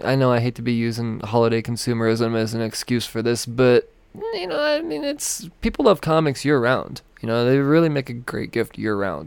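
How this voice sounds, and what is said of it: Hoarse, fading voice. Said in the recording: “In case you can't tell, I am slowly losing my voice here.”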